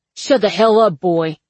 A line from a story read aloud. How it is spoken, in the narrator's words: Terry barks